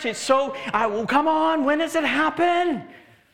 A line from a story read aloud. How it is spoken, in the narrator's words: Urgently pleaded